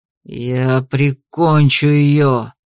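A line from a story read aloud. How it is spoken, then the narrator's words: Barely restrained growl. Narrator (Russian): прорычал он, едва сдерживая своего внутреннего дракона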